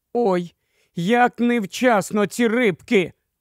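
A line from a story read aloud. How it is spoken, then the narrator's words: Exclaimed. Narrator (Ukrainian): вигукнула Люсі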